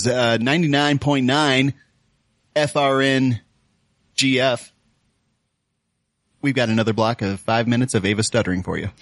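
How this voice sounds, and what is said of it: Radio announcer voice. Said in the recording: “do my radio voice”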